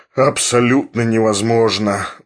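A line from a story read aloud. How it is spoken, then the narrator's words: Sighing confirmation. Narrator (Russian): вздохнув, подтвердил Филипп Филиппович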